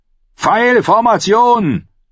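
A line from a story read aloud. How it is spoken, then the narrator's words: Bellowed. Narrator (German): brüllte Mans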